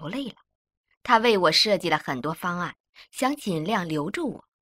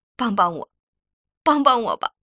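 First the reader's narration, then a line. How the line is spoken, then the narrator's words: Crying plea. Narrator (Chinese): 我哭着求校长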